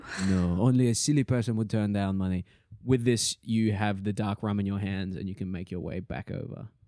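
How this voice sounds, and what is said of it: Strange, eclectic put-on accent. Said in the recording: “you have a strange and eclectic accent, no?”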